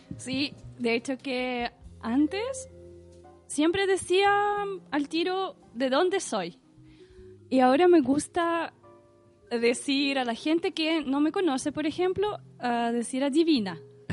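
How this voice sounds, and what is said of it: Russian accent in Spanish. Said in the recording (Spanish): “ese acento ... Rusia”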